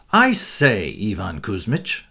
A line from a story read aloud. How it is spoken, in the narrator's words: said, chuckling behind his hand